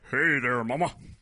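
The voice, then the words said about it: Johnny Bravo cartoon voice impression. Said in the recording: “Wait, was that an impression? ... or was that a real voice? ... Johnny Bravo.”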